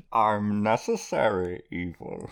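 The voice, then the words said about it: Impression of Bane. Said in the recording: “Bane ... do your impression. ... That was pretty good.”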